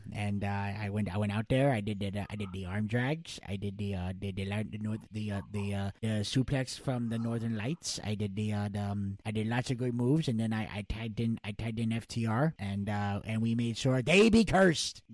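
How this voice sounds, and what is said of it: Impression of Danhausen's voice. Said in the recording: “you do his voice very well ... I do a good Danhausen”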